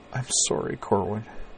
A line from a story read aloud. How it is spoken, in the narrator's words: said softly, in a tone of raw and complete misery